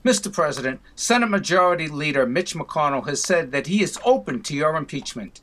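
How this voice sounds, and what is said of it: Boston accent. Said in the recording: “with the Boston accent”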